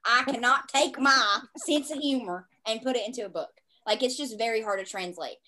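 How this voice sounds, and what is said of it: Southern US accent. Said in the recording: “I just sounded so Southern right there ... My Southern accent is, like, on it today”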